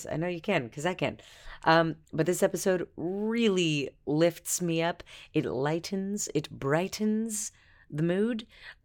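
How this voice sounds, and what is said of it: Sick, under-the-weather voice. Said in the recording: “I'm feeling a bit under the weather today. You can hear it in my voice.”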